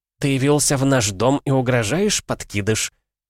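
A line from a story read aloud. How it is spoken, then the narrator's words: Woman speaking through teeth. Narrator (Russian): процедила женщина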